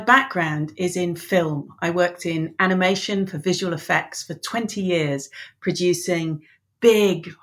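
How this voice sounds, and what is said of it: English accent. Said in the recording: “She's Irish, nomadic, and is as confused as everyone else why she has an English accent.”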